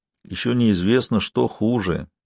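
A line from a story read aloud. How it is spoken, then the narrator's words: Barely audible, quiet. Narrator (Russian): тихо, едва слышно произнес староста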